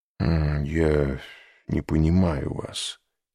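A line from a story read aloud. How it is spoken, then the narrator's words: Muttering. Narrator (Russian): пробормотал Люсьен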